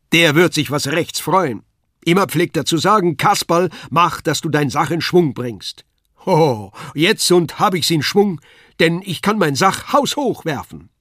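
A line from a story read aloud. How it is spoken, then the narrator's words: Calling out. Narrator (German): rief er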